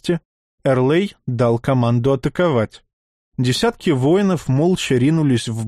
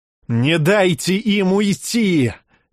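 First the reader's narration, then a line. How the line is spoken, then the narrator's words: Furious yelling. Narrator (Russian): в бешенстве заорал Эрлей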